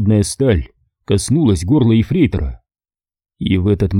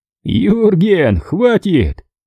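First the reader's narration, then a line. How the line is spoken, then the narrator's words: Laughing exclamation. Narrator (Russian): Смеясь, воскликнул второй эсэсовец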